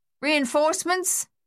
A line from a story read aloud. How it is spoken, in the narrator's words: Luther yelled across the noise of the gunfire